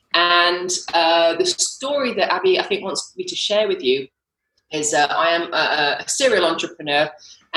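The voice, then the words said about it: British accent. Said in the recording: “I'm actually British, if you could tell from my accent”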